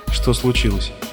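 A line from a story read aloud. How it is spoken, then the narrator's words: Plain. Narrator (Russian): спросил он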